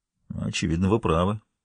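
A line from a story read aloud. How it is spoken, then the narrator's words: Breathless mutter. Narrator (Russian): пробормотал Харри, едва поспевая за ней вверх по лестнице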